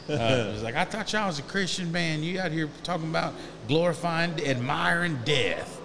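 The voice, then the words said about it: Exaggerated Southern US accent. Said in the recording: “I just made that accent like it surely had to be somebody talking like that. I'm from the South, so I can do this”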